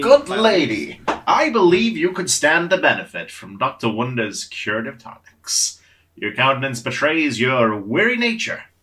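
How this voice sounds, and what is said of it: Josiah character voice. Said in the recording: “do a Josiah impression ... That's the voice.”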